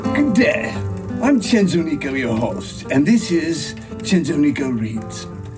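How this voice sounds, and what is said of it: Very bad fake British accent. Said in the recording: “reads with a bad British accent ... reads with a very bad English accent”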